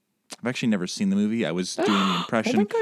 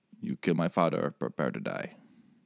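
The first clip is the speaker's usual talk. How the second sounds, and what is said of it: Bad Inigo Montoya impression. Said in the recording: “It's a really bad impression.”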